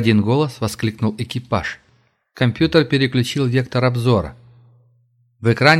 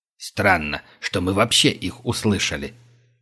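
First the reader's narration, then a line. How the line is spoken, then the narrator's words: Muttered. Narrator (Russian): пробормотал Глинич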